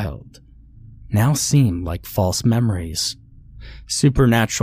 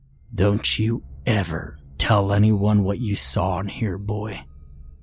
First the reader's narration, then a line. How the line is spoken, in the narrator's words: the man snarls